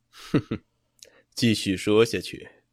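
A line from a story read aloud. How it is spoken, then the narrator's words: Cold laugh. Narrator (Chinese): 魏凌风冷冷一笑，道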